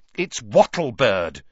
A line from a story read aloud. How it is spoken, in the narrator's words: said Hermione impatiently